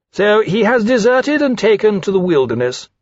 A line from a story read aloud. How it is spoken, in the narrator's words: Rankin said impatiently